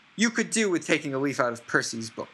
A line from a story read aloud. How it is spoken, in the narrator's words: yelled Mrs